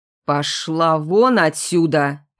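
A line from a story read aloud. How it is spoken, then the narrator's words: Furious through clenched jaws. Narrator (Russian): процедил Ветров так зло, что аж челюсти заломило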